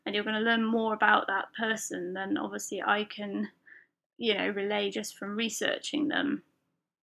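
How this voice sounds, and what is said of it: British accent. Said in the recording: “if you hadn't guessed from the accent, from the UK”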